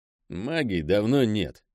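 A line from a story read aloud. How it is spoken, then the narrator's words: Grumble. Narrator (Russian): буркнул Пэл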